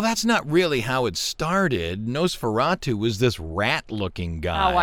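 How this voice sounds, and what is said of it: Usual voice. Nothing is said of it.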